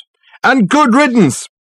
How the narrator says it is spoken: shouted a voice from the inner office

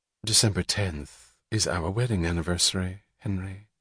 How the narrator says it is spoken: She said gently

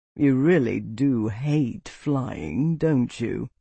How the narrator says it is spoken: Aldric drawled

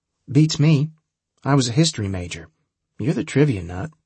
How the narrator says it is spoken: she replied

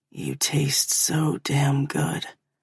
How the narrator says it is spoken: murmurs against me

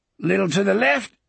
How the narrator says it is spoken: Speedy gasped

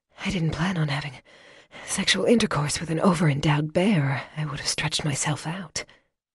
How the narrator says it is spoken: her breath coming in gasps, she said

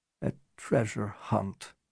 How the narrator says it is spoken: Barak said softly

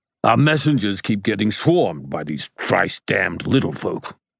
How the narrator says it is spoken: Korb spat

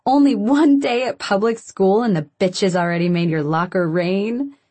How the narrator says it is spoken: she laughs

